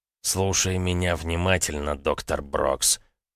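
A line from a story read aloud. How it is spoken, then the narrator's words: Menacing, words separated. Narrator (Russian): разделяя слова грозным голосом, сказал парень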